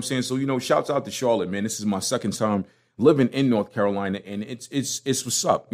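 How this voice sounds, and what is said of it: Brooklyn accent. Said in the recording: “I'm going to keep my Brooklyn accent.”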